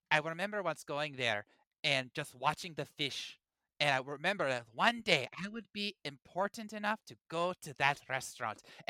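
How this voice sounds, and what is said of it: Imitation of Tali, self-described as poor. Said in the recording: “I don't do a good Tali impersonation”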